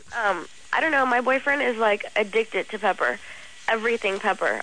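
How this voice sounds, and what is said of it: Sick-sounding voice. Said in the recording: “I'm kind of sick, so that's why my voice is up.”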